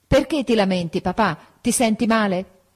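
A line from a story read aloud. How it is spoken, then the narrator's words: Shouting into ear. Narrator (Italian): M'avvicinai all'orecchio di mio padre e gridai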